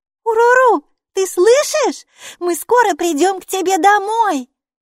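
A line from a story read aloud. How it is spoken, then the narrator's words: Exclaiming. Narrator (Russian): воскликнула Майки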